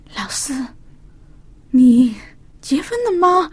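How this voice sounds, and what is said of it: Quiet, hushed voice. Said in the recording (Chinese): “很小声的说”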